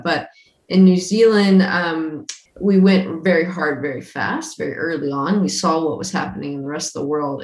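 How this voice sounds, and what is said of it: American accent. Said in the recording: “I'm not a Kiwi. You can tell by my accent. So I'm from America originally.”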